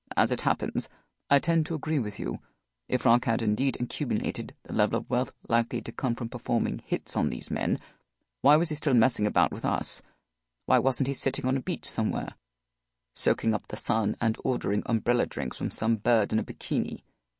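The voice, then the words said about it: Smooth British accent. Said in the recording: “his smooth British accent”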